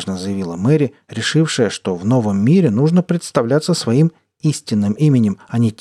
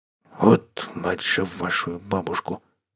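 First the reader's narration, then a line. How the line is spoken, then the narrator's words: Grumbling commander. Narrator (Russian): пробурчал командир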